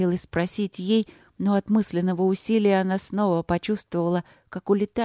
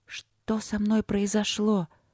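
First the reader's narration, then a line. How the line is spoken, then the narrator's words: Whisper. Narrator (Russian): прошептала Полина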